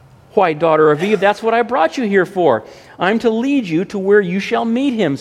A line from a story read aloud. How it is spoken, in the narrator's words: said Mr